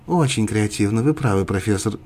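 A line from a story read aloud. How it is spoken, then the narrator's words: Quiet. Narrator (Russian): тихо добавила Биба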